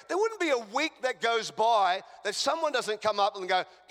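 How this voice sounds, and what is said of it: Australian accent. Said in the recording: “I have a foreign accent. ... I'm an Australian.”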